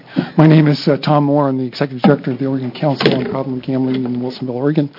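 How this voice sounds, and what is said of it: Speaking very fast. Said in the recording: “I'm talking really fast”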